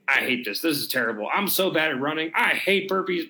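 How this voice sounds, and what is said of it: Poor imitation of another person. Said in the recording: “that was a terrible impression.”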